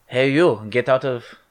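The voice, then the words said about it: Poor put-on Chinese accent. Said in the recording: “That's not even a Chinese accent... that's racist”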